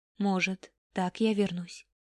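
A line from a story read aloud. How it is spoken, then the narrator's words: Hopeful whisper. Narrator (Russian): с надеждой прошептал Арай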